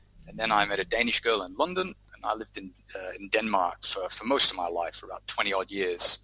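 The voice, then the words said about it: Hybrid mixed English accent. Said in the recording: “my accent to turn into a bit of a hybrid”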